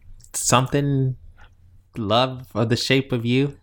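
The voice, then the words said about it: Bad British-accented singing impression. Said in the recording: “He's very British. That was a very bad impression.”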